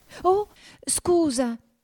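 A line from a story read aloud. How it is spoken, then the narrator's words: Exclaimed again. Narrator (Italian): esclamò di nuovo Alice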